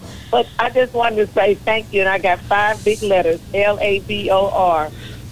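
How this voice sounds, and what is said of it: Slightly messed-up, impaired voice. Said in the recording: “My voice is a little bit messed up.”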